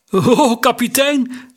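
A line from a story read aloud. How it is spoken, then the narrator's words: Shaky-voiced call. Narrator (Dutch): riep met onvaste stem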